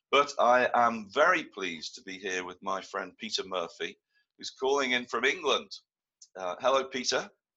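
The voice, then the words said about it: Croaky, congested voice. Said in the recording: “I've got a cold, as you can hear, so you'll have to accept my croaky voice.”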